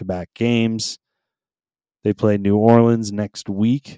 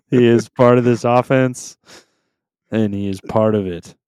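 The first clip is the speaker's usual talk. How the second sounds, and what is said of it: Imitates another person's voice. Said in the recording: “doing your best Bill Belichick impersonation?”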